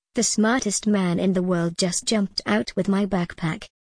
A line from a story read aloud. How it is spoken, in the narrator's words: said calmly